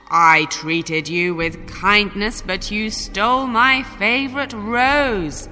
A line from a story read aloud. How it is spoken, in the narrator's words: the beast roared